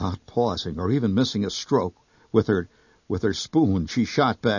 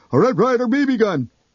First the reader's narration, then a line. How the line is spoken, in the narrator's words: Horrified, blurt